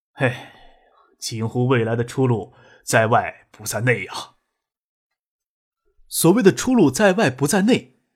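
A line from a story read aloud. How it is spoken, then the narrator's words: With a slight sigh. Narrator (Chinese): 许洪博微微一叹，说道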